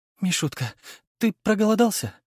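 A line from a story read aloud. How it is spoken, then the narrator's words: Sobbed. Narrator (Russian): всхлипнула она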